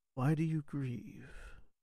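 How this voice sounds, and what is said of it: Deep, raspy, calm quiet voice. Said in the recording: “A sort of deep, almost raspy, but more bassy voice just from just behind you. It's very calm and quiet. It's not aggressive in any manner.”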